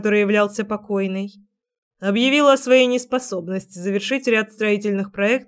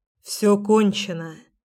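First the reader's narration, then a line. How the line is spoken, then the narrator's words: Quietly. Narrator (Russian): говорит тихо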